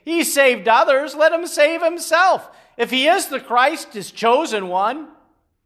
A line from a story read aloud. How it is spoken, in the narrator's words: scoffed at him, saying